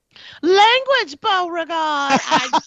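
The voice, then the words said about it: Good impression of Loretta Devine's character. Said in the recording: “that was a good impression”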